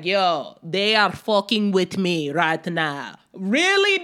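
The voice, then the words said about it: Imitates another person's accent. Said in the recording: “Putin that's accent? ... no accents”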